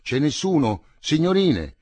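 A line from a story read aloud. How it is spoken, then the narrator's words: Shouting. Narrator (Italian): gridavano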